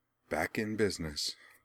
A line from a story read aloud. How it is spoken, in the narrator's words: she murmured with an air of great satisfaction